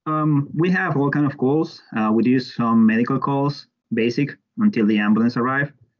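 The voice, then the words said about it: Strong non-native accent, fast speech. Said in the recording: “It's not easy with my accent. Poor guys, my captain sometimes look at me like, what are you trying to say? Slow down and tell me again.”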